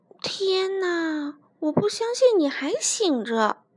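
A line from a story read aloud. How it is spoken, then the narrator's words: Quiet, hushed. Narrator (Chinese): 黛拉小声说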